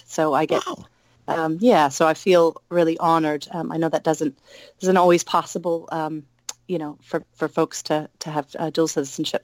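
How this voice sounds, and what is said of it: Mixed American and New Zealand accent. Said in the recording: “originally from Oregon, but I've lived now in New Zealand for a few years ... that's why there's a bit of a strange accent. I get asked that a lot. Why do you speak like that?”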